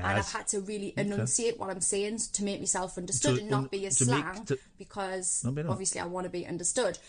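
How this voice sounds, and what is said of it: Thickened Geordie accent. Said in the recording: “My accent softened a lot, so I'm going to thicken it up slightly. ... The proper sounds of Geordie. ... Geordie accent. We speak really, really fast.”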